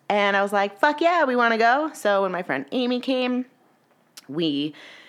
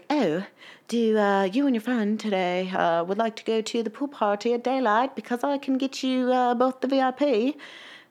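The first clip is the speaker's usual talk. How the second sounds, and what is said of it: Imitates a man's cool accent. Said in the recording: “he like has this really cool accent ... That's my impression of him.”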